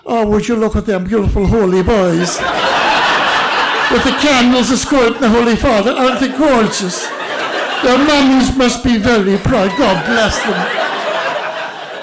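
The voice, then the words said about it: Put-on Irish accent. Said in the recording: “in an Irish accent”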